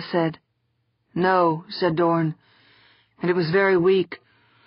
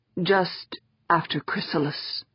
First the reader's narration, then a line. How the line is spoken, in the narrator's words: Doran said, his voice barely audible